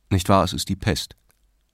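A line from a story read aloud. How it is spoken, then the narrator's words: Cold question. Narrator (German): fragte der Richter kalt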